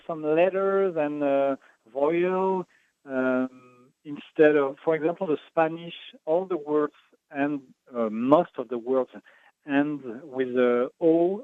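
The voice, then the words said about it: Strong French accent. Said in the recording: “I have this strong French accent.”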